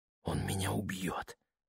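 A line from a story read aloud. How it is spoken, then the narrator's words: Whisper. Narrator (Russian): прошептала она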